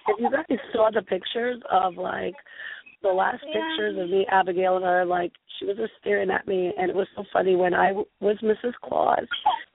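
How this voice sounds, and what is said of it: Hoarse, worn-out voice. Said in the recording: “lost my voice. I was karaoke-ing it all over New Hampshire ... my voice is so bad”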